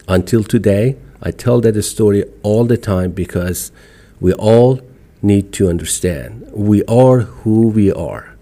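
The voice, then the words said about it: Iranian-accented English. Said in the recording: “I am here proudly as an Iranian American. And I speak English with an accent. It's not horrible. It's not American.”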